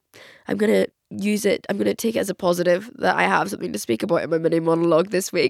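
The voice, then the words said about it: Voice sounds ill, like a cold. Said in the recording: “As you can probably tell by my voice, I am quite ill... I think I have the flu... I do just have a cold or a flu”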